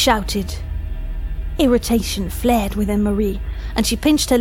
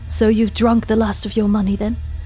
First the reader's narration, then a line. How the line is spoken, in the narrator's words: She asked coldly